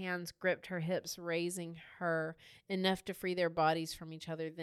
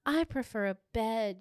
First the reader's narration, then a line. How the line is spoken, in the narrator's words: Yasmin breathed